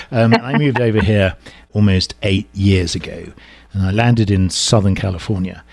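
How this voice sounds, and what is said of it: English accent. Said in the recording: “I'm originally from England, as you can tell from my sort of”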